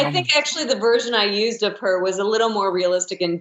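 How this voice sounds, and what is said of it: Usual voice. Nothing is said of it.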